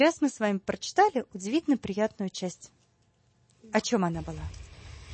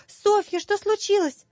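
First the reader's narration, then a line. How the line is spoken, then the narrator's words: Frightened, then relieved. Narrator (Russian): Это испуганно, а потом с облегчением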